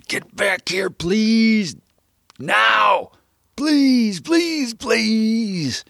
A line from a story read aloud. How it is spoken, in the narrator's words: yelled without making a sound, would have screamed